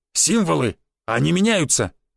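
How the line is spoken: Exclaimed. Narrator (Russian): воскликнул Буян

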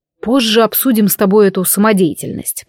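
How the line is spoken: Grumbled. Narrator (Russian): проворчал ведьмак

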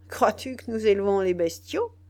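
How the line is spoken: Sneering. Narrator (French): dit Biassou en ricanant

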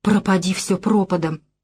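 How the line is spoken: Defiant whisper. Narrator (Russian): с вызовом шепнула она

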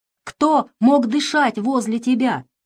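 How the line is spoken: Shouted. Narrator (Russian): кричал он

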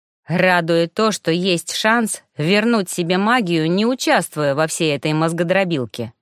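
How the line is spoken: Plain. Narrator (Russian): ответил Локридж

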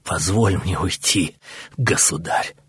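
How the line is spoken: Choked, strained rasp. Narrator (Russian): прохрипел тот, едва проталкивая слова через сведенное внезапным спазмом горло

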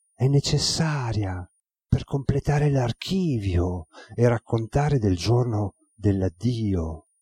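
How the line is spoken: Girl speaking softly. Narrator (Italian): La ragazza aggiunse a bassa voce

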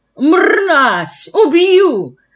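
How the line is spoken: Shouted in disgust and rage. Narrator (Russian): закричал Иван Матвеевич, весь побелев от омерзения и гнева

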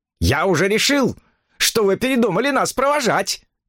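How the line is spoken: Cheerful shout. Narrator (Russian): крикнул он весело

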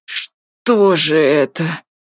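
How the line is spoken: Muttered through teeth. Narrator (Russian): сквозь зубы пробормотал Артур

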